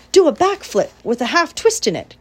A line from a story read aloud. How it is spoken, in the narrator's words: cried Charlotte